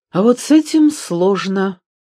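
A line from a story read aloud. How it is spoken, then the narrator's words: Sighing old woman. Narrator (Russian): вздохнула старая дама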